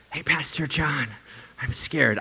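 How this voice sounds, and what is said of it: Whispered speech. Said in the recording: “whisper”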